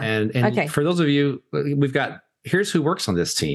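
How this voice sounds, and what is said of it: New York accent. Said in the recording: “my New York accent is not very interesting”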